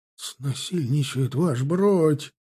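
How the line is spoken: Hoarse wheeze. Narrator (Russian): прохрипел Блохин

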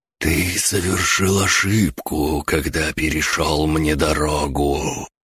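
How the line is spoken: Whisper sweeping the clearing. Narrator (Russian): Шепот пронесся по всей поляне

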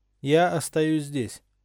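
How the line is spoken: Even voice. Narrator (Russian): ровным голосом сообщил Гарри

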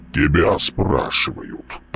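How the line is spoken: Booming drone. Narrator (Russian): прогудел Мальп

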